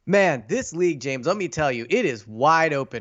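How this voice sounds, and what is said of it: Put-on national broadcast sportscaster voice. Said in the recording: “do my national hit voice”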